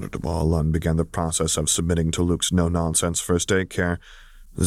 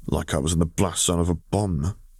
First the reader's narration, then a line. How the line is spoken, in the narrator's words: he snorted dryly while trying to regain some of his lost composure